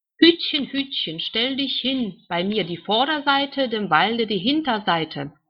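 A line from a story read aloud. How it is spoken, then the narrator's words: Called out. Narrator (German): rief die Wand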